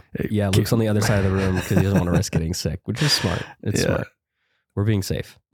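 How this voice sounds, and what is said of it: Much deeper voice than normal. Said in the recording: “I'm getting over some sickness, and so my voice is just tremendously deeper than normal.”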